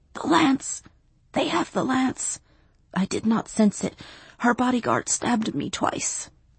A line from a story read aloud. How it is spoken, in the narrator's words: The little sorcerer gasped